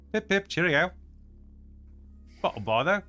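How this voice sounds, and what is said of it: Put-on British accent. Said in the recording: “I guess I could be British.”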